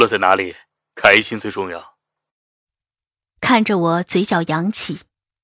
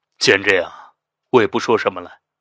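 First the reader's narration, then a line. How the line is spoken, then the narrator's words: Sighing. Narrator (Chinese): 肖斌叹口气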